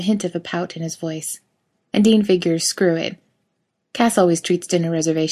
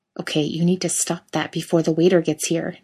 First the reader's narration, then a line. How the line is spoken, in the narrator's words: Dean insists under his breath